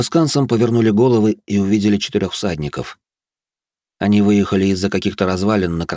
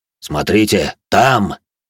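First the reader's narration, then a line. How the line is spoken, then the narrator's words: Sudden deep bass. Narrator (Russian): Неожиданно пробасил Грон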